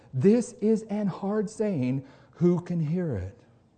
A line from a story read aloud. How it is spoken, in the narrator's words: offended, murmuring